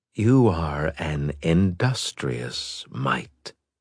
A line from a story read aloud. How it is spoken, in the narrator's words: the builder said softly